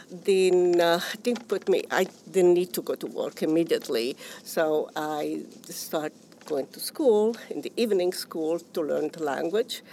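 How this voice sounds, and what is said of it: Non-native English accent. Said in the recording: “I still have an accent, which I would never lose”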